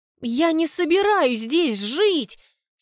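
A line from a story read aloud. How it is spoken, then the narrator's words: Hoarse reply. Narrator (Russian): сиплю в ответ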